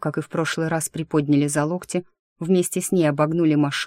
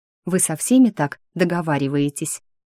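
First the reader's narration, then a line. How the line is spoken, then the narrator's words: Hissing. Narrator (Russian): зашипела Дарья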